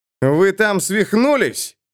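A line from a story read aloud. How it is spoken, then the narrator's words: Shouted. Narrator (Russian): крикнул Эрвин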